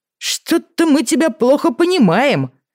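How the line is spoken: Shouted from the yard. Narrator (Russian): крикнули ему со двора

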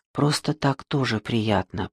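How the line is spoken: Whisper. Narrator (Russian): прошептал он

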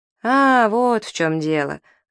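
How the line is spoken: Laughing mother. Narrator (Russian): Вовкина мать засмеялась

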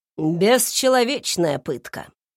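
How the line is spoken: Scoffing grunt. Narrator (Russian): хмыкнул он

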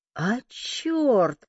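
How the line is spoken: Interested exclamation. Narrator (Russian): заинтересованно воскликнул Захар

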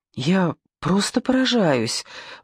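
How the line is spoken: Agitated, excited. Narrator (Russian): взволнованно сказала Надя

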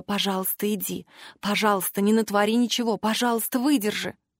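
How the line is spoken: Silent inner whisper. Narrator (Russian): мысленно шептала

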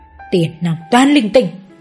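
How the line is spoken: Old woman's mutter. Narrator (Vietnamese): bà ấy mồm vẫn cố lẩm bẩm

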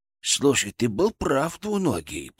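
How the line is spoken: Whisper in the ear. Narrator (Russian): прошептал мне на ухо

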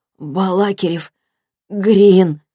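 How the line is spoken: Hoarse repetition. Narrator (Russian): повторила хрипло

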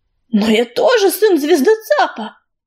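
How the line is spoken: Hoarse, forced out. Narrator (Russian): хрипло выдавил из себя

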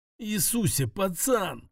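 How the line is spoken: Groaning. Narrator (Russian): простонал Луис

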